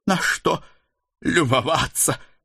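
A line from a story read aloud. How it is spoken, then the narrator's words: Half-wheezing sharp retort. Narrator (Russian): Полухрипя, отбрила Дана, с трудом подымаясь с колен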